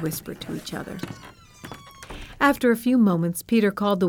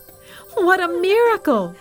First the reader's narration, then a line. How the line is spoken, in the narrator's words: the people shouted